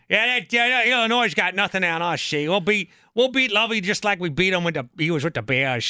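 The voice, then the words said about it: Old man Wisconsin accent, gold-prospector voice. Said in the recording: “my old man Badger accent sounds like I'm prospecting for gold ... How old is that guy you're impersonating? ... he's 95 years young”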